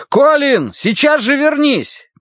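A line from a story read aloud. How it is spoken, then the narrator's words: Shout. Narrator (Russian): крикнул Дэн Уорти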